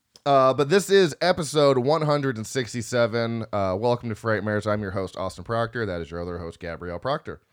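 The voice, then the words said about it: Groggy, phlegmy morning voice. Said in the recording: “I sound groggy and very... Phlegmy. That morning phlegm.”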